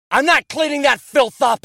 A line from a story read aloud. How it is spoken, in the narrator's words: he shouted